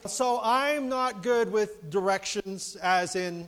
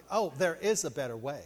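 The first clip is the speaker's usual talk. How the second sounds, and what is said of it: Condescending GPS lady voice. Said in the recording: “in a really condescending voice”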